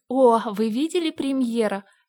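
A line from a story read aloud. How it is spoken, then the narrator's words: Immediate exclamation. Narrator (Russian): сразу воскликнула Энн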